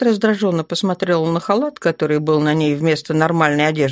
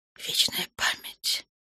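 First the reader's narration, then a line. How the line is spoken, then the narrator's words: Fearful whisper. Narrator (Russian): прошептала Маргарита, боясь даже представить себе, какие потери понесли темные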